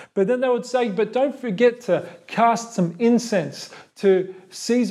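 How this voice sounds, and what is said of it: Usual voice. Nothing is said of it.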